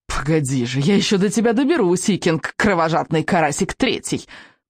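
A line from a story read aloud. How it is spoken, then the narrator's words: Growled. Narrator (Russian): прорычал Элвин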